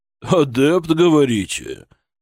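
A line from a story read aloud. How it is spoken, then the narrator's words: Skeptical snort. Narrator (Russian): Преображенский хмыкнул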